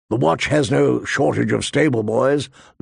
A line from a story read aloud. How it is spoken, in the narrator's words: Lord Mormont grumbled